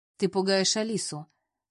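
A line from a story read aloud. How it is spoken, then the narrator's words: Calm. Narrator (Russian): спокойно произношу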